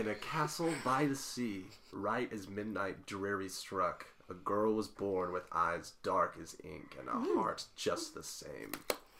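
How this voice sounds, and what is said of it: Spooky gravelly storytelling voice. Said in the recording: “In your spookiest voice. ... You've got the gravelly voice.”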